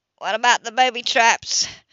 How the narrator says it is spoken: Grayson yelled

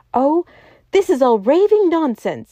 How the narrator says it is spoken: he cried

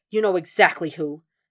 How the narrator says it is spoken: he snapped

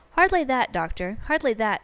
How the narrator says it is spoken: said Holmes, in his blandest voice

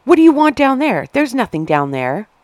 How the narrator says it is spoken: She yelled at Hayes

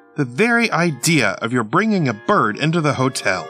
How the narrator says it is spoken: cried

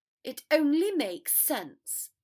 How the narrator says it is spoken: Draco snapped

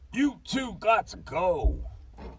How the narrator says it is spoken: Harley blurted out

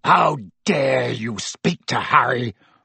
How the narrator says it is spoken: roared Black

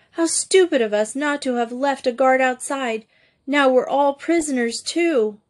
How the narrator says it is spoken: Louise cried out

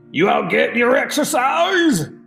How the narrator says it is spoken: He hollered

